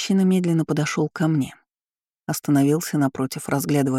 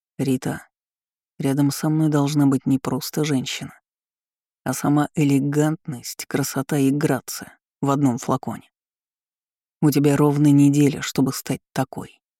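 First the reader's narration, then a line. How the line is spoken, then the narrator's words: Even voice. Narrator (Russian): ровным голосом произнес Артём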